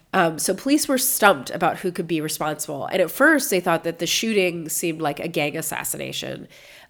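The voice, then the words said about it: Congested, stuffed-up voice. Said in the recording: “I know that I sound stuffed up, but it's because I am. I still have a cold.”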